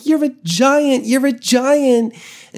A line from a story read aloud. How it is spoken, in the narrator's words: he just squeals and he's like